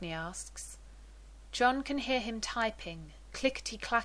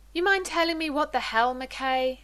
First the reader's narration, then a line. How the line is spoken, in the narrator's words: John asks loudly